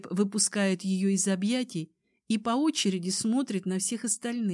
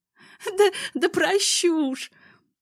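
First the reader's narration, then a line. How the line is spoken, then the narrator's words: Laughing through tears. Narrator (Russian): Сквозь слезы смеется Даша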